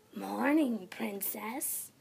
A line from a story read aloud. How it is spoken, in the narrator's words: came a raspy voice